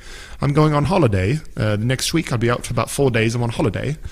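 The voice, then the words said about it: Poor put-on British accent. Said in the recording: “my UK accent is terrible ... You are so bad at our accent.”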